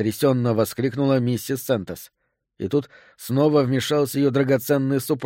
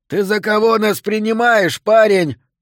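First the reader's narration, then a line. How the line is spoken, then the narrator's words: Yell. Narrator (Russian): завопил он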